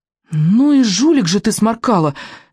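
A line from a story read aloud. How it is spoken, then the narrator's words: Heated exclamation. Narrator (Russian): горячо воскликнул рыбьенок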